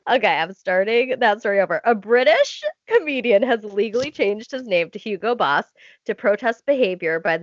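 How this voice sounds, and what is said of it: Stuffy, congested nasal voice. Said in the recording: “I'm stuffy right now, okay? I'm stuffed up.”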